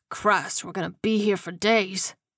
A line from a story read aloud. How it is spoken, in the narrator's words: Johnson muttered under his breath